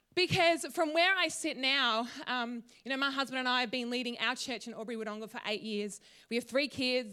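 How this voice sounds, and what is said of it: Emotional, voice close to tears. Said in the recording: “I'm getting emotional ... Here we go, get emotional.”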